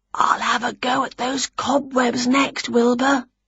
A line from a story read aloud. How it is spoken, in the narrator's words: whispered Winnie